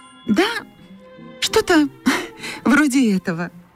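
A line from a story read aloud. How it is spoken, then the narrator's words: Uncertain, embarrassed. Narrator (Russian): неуверенно ответила Катя, смущенная всеобщим вниманием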